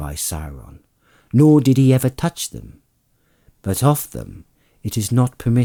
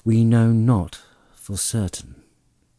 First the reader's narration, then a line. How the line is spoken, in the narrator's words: answered Elrond sadly